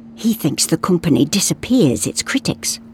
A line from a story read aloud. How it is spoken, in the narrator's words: whispered Sven